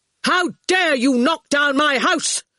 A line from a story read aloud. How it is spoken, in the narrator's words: he shouted